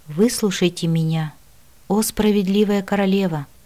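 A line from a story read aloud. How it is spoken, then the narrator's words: Sighing. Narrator (Russian): вздохнула я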